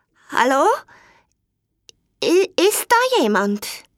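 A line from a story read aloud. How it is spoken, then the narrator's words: Trembling voice asking. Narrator (German): fragte er mit zittriger Stimme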